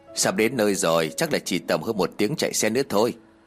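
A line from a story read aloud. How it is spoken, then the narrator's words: Smiling, friendly. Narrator (Vietnamese): Bố Tiên liền mỉm cười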